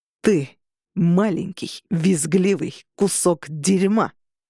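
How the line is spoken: Growling. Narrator (Russian): зарычал Роган

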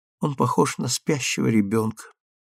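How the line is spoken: Tender whisper, woman. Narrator (Russian): нежно шепнула Эллен

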